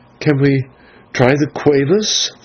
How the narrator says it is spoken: faltered Maya

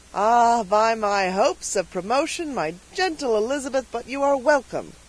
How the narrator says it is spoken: cried the trooper

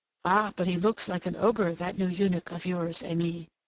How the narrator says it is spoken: murmured one of the little Turks

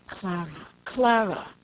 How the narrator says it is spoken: murmured in a low, pleading voice

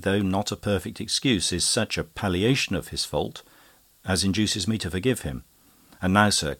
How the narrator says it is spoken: continued he, kindly

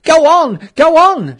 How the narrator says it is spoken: shouted angry voices behind

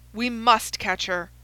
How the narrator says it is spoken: cried Holmes between his teeth

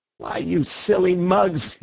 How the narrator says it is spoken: he cried

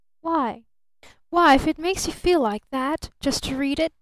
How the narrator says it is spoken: she reproached him mournfully

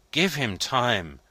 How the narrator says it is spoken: pleaded Maitre Voigt

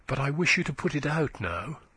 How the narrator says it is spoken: she said hastily

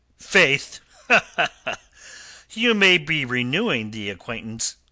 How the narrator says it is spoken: the captain laughed unpleasantly

